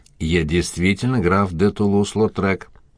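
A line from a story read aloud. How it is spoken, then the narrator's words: Gruff mutter. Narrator (Russian): буркнул он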